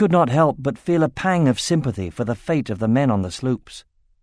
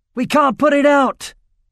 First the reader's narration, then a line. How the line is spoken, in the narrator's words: shouted one of the sailors with a panicked expression